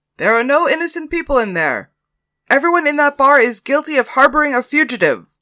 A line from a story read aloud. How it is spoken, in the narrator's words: one of the Pinkerton strikebreakers yelled out